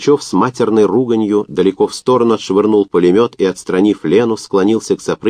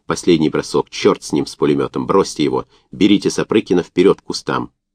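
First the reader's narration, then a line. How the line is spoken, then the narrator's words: Barely audible. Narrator (Russian): Лена сказала еле слышно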